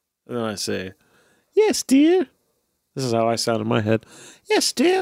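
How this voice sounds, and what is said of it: Usual voice. Nothing is said of it.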